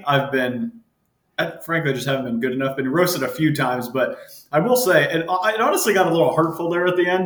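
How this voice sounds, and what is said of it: American accent. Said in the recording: “You're hearing an American accent give the intro”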